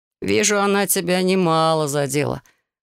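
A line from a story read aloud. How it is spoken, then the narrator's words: Amused snort. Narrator (Russian): хмыкнул Юджин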